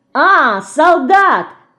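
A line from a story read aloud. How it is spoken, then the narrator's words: Sudden shout. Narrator (Russian): вдруг закричала Динка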